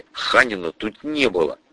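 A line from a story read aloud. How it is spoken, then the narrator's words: Quiet remark. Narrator (Russian): тихо обронил я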